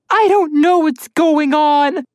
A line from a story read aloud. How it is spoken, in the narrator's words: Alex burst into the loud and awkward tears one cries when exhausted and overly stressed